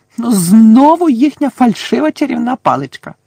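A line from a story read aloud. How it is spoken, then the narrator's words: Shouting. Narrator (Ukrainian): закричала вона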